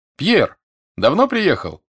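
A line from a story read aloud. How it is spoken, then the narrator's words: Familiar voice shouting. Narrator (Russian): прокричал знакомый голос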